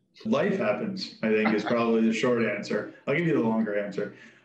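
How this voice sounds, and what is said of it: American accent. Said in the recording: “someone with an American accent who's clearly from the States”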